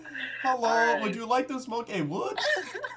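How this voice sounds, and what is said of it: Put-on Norwegian accent. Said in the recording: “I don't know what accent that was. ... That was Norwegian.”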